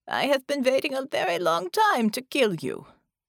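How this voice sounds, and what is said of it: Crisp German accent. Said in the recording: “said with a crisp German accent”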